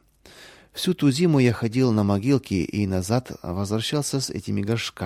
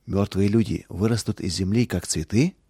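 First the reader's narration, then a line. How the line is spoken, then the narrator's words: Quiet question. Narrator (Russian): Роланд тихо спросил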